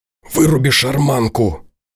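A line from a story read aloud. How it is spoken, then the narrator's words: Whisper. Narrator (Russian): шепнул Тимур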